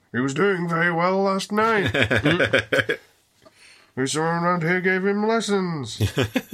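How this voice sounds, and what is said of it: Good impression of Dr. Loomis. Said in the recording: “My Loomis impression. ... That's very good, that. It's better than Malcolm McDowell's impression.”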